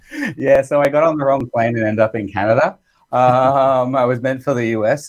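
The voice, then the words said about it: Australian accent. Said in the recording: “I'm originally from Australia. You might tell that from my accent.”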